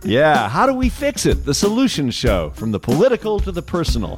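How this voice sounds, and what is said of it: Polished radio announcer voice. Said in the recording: “That's your radio voice.”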